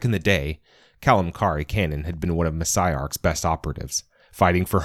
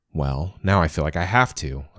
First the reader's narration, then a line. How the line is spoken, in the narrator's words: I said